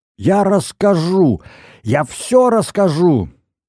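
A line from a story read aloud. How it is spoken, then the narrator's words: Hysterical yelling. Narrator (Russian): Пауген истерически заорал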